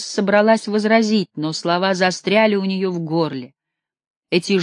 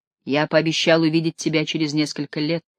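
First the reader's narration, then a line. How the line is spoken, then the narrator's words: Low, deep voice. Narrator (Russian): сказал Клеофрат своим низким голосом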